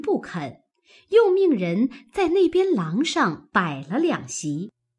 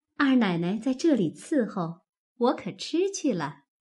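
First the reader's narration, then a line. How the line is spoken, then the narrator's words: Laughing. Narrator (Chinese): 鸳鸯因向凤姐笑道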